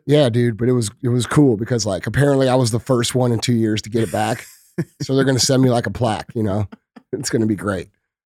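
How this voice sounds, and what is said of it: Rough, damaged sick-sounding voice. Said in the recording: “my voice is dog shit ... dog shit voice ... My voice is fucked”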